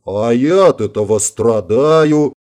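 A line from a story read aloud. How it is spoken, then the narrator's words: Grumbled. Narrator (Russian): пробурчал травмированный парень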